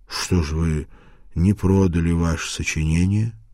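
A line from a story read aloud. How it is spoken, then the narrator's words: Plain. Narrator (Russian): спросил я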